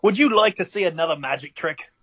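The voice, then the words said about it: Deliberately bad put-on accent. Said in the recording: “I'm going to do a really shitty accent here”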